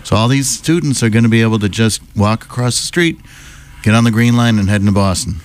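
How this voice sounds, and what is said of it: Worn-out, strained voice. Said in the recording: “My voice is already shot”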